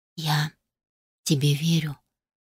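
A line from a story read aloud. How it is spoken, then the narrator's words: Close intimate whisper. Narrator (Russian): прошептала прямо в губы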